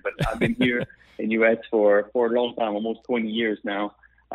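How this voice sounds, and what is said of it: French Canadian accent. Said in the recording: “I'm from Canada, the French part. You hear my accent.”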